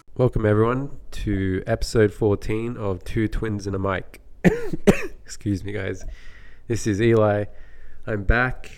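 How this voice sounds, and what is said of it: Quiet, subdued, sick-sounding voice. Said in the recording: “my voice is a bit more quiet and subdued today. And that's because I'm sick, terribly sick. And just sore throat”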